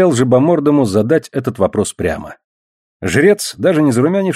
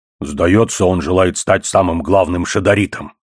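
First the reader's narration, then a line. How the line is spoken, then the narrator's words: Snorting remark. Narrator (Russian): хмыкнул одноглазый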